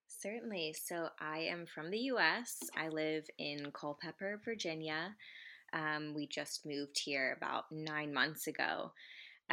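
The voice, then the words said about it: American, non-Australian accent. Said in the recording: “our audience will be able to pick up your accent and tell that you are not Australian”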